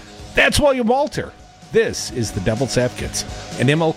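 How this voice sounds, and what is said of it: Usual voice. Nothing is said of it.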